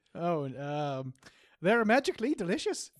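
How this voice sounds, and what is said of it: Exaggerated leprechaun-style Irish accent. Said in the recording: “give me some words in what you think is an Irish accent ... Very offensive, but the closest you've done ... Is a leprechaun accent from the Lucky Charms commercial”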